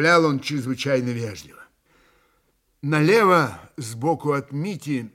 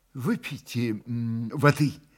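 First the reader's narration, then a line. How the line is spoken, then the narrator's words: Investigator, soft and patient. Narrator (Russian): мягко повторил в десятый раз следователь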